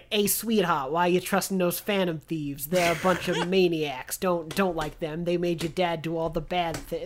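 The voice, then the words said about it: Funny mob-lackey cop voice. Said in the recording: “What is that voice? ... like mob lackey cops ... It's just real like, "Hey." ... like in a funny way”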